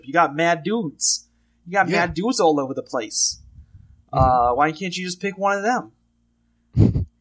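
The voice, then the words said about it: Put-on New York accent, drifting. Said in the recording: “my New York accent? ... It's a little Sarah Palin-y for my taste. ... It's a little Alaska for you. ... that Michigan flavor? ... you give me a quick sweep of the United States with that accent.”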